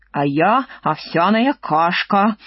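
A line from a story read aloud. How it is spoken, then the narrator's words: Old woman's grumble. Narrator (Russian): ворчала в своей кастрюле, как старушка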